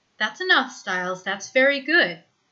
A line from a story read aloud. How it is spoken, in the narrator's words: the woman says warmly